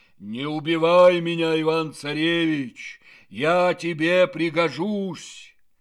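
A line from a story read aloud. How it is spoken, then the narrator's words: Bear speaking in human voice. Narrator (Russian): а медведь ему человеческим голосом говорит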